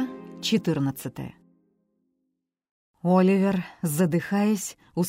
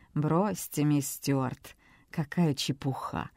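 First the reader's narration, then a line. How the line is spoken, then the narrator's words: Senator's dismissive snort. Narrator (Russian): хмыкнул сенатор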